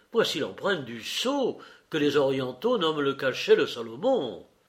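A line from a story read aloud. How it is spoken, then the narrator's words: Exclaiming. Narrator (French): s'écria-t-il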